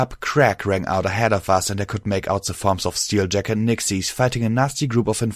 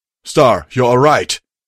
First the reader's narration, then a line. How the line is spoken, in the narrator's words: I heard Steeljack shout